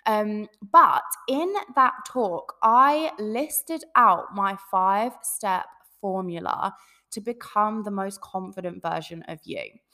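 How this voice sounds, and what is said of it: Hoarse, sore-throated voice. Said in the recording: “I've got a sore throat as well, because I was just projecting my voice all weekend”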